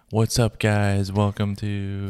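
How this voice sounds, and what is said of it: Drowsy radio DJ voice. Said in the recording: “my radio DJ voice ... you sound stoned ... is he napping? Like, because you're so like”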